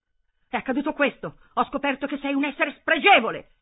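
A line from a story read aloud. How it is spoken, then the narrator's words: Breathless screaming. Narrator (Italian): Hermann stava urlando, non riusciva a riprendere fiato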